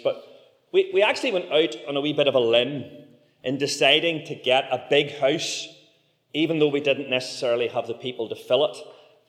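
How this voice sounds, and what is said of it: Heavy Belfast accent. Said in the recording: “my very heavy Belfast accent”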